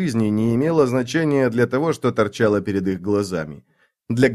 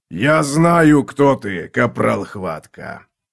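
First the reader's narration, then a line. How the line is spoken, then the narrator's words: Deep rolling voice. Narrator (Russian): ответил Лич глубоким, раскатистым голосом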